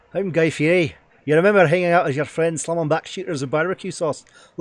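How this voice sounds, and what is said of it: Put-on Scottish accent. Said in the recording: “Do it in a Scottish accent. ... You can do Scottish. ... Guy Fieri as a Scottish, as a Scotsman”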